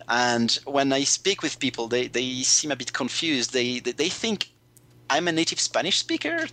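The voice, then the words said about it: French-accented English. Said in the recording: “My accent definitely doesn't sound British to them ... a big majority of them, I'd say, can tell that I'm that yeah I'm a French speaker”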